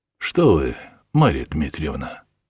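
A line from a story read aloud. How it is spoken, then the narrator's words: Plain. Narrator (Russian): спросил Бутлер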